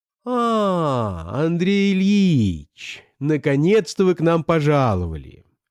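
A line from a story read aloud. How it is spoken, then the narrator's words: Sing-song exclamation. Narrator (Russian): воскликнула она нараспев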